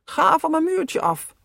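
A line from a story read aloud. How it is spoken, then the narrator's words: Bellowing. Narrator (Dutch): brulde altijd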